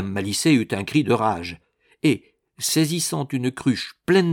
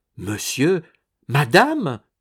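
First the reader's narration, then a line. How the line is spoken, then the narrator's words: Exclaiming. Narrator (French): s'écria-t-elle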